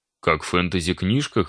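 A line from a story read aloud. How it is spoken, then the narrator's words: Smirking grunt. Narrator (Russian): хмыкнул Илья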